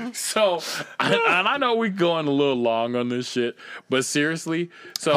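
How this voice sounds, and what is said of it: Usual voice. Nothing is said of it.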